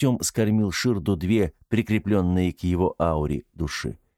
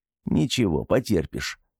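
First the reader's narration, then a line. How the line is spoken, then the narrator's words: Gruff mutter. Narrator (Russian): буркнул Артем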